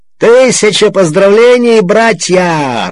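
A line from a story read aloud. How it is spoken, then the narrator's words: Joyful shout. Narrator (Russian): радостным голосом выкрикнул Обнорский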